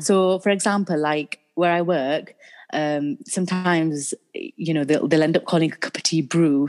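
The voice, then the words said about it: Northern English Yorkshire accent. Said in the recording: “Having the Northern accent ... What do Southerners think of our accent? ... when you're around a Yorkshire person or a northern accent”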